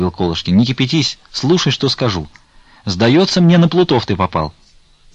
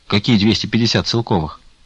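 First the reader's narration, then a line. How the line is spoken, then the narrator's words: Plain. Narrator (Russian): спросил Потап Максимыч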